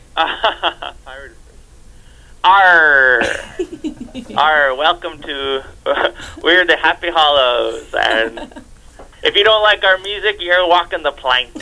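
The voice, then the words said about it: Pirate character voice. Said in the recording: “your very best pirate impression”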